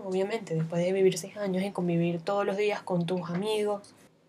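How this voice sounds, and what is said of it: Venezuelan accent mixed with Panamanian. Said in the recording (Spanish): “un acento bastante extraño, porque soy venezolana, pero además de eso, vivo casi desde hace seis años aquí en Panamá. Entonces, se mezcla un poquito los acentos ... panameñizarme”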